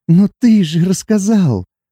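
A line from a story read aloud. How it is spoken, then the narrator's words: Sobbing whisper. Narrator (Russian): Всхлипывая, прошептала Сати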